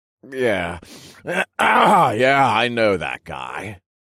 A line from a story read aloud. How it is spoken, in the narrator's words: He slurred